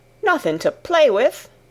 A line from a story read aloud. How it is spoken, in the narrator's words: exclaimed Martha